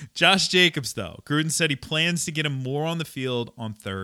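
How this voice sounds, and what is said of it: Usual voice. Nothing is said of it.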